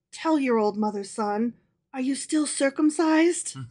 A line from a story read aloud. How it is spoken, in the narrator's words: in a confidential voice, she whispered